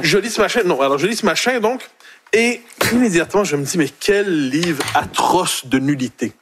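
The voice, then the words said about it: Québécois French accent. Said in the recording (French): “Il a même retrouvé son accent québécois”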